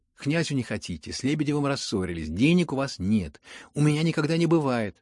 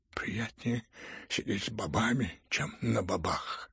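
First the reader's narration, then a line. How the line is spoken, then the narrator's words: Muttering. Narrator (Russian): пробормотал генерал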